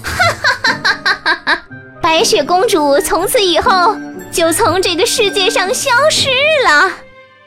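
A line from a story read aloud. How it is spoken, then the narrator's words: Wicked laughing. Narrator (Chinese): 坏心肠的王后大笑着说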